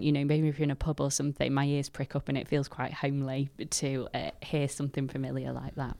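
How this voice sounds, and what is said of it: Mixed Stoke, Manchester and Yorkshire accent. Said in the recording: “I've got a funny mashup of accents. So I have still got little bits of Stoke, but then I lived with girls from Manchester at uni. And so I picked up a bit of that, and then I've picked up some Yorkshire as well”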